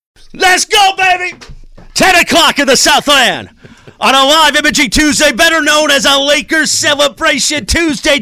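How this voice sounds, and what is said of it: Excited, energetic shouting. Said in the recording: “Do you hear the excitement in my voice?”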